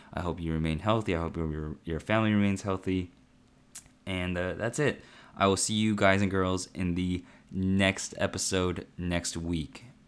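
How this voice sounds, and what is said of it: Quiet, slightly raspy voice. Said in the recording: “being a little bit more quiet than usual ... It is getting a little raspy.”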